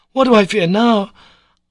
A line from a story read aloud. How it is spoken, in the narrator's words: cried in fierce and angry tones